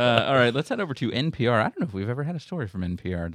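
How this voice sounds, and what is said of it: Usual voice. Nothing is said of it.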